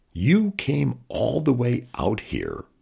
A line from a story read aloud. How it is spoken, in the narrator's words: Riley said, slowly, like she was working it out as she said it